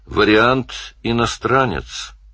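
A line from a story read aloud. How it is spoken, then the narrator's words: Calm. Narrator (Russian): сказал Данил спокойно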